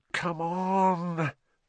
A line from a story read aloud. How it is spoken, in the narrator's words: Ron muttered